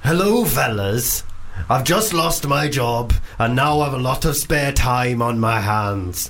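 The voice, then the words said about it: Poor put-on Welsh accent. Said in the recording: “Welsh, because I've heard your Welsh accent. ... I'm bad at ... genuinely ... Welsh. ... Genuinely dreadful. ... I'm bad at Welsh. ... I can only do Rod Gilbert.”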